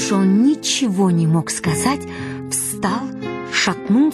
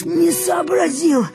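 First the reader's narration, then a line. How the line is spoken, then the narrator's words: Timid babble. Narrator (Russian): пролепетал Сердобов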